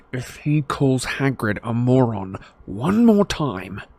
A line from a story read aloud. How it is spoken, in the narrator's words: said Harry through gritted teeth